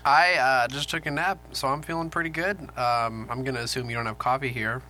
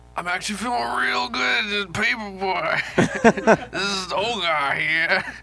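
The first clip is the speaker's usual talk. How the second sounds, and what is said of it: Imitates another person's voice. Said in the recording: “Is that your impression of me?”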